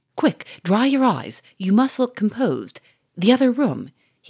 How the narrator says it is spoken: he cried in an imperative tone

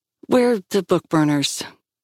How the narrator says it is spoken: she sighed

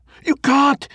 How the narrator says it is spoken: Jack cried

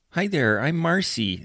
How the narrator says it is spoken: the woman said, her voice a nasally whine

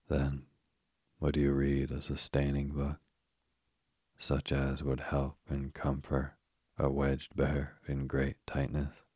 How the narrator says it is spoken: a tear rolled down his eye as he said

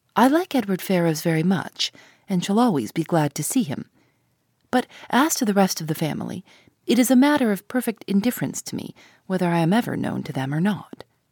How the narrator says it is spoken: saying, as calmly as she could

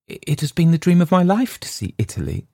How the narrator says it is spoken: she gasped

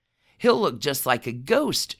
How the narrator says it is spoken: Truman said

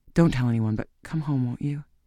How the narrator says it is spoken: he whispered

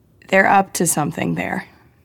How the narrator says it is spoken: said

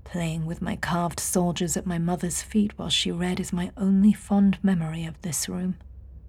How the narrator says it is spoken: she heard him murmur

